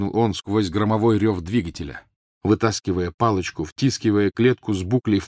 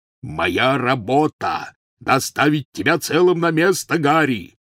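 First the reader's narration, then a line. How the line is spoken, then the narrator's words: Roaring. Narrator (Russian): взревел Хагрид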